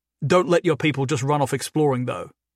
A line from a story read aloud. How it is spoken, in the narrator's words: Neil said